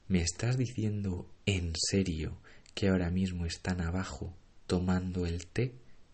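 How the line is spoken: Plain. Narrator (Spanish): me preguntó

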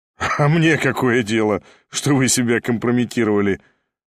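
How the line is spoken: Laughing. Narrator (Russian): засмеялся Ставрогин

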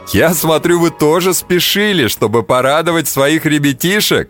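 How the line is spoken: Laughing. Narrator (Russian): засмеялся Густав

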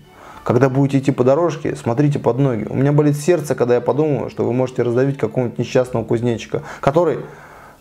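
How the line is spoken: Whisper. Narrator (Russian): Я шепнул

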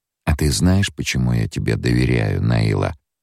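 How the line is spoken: Flat, emotionless. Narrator (Russian): Вопрос был задан будничным тоном, лишенным каких бы то ни было эмоций

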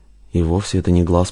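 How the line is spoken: Muttered. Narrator (Russian): пробормотал Рузаев

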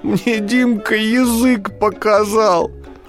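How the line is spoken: Tearful answer. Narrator (Russian): сквозь слезы отвечает Милана

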